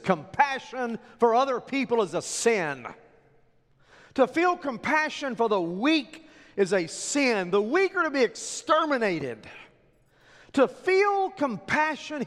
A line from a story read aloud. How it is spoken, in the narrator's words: yells